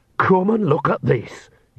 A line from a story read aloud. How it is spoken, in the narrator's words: hissed Nanny